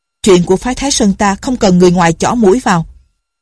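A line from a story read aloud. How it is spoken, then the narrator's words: Angry. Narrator (Vietnamese): Thiên Môn tức giận nói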